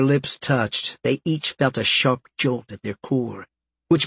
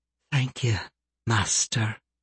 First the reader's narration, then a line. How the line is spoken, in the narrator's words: she whispered